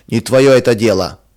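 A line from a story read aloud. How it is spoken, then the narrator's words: Rude reply. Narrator (Russian): грубо отвечал он жене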